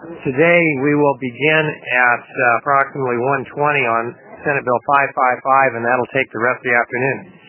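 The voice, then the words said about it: Voice sounds different, impaired. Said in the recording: “I apologize for my voice. It is different for those who have heard me before, but it's better than it was yesterday.”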